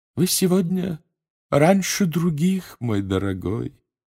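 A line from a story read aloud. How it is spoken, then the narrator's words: Sad tone. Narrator (Russian): печальным тоном обратилась она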